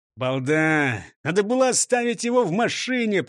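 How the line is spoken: Grumbling. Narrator (Russian): проворчал шеф

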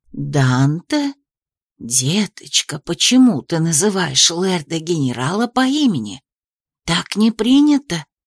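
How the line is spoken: Fearful whisper. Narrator (Russian): зашептала Анисия так, будто боялась, что кто-то услышит

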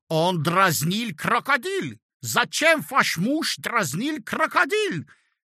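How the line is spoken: Shouting while struggling. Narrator (Russian): кричал, отбиваясь, немец

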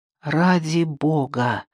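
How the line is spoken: Irritated mutter. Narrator (Russian): пробормотала Джейми, разозленная его заносчивым поведением

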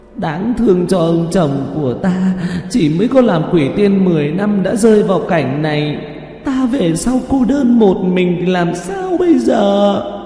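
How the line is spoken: Sobbing female ghost. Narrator (Vietnamese): Nữ quỷ khóc thút thít

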